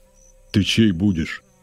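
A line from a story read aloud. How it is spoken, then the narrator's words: Stern but matter-of-fact. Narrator (Russian): спрашивает строго, но буднично мужчина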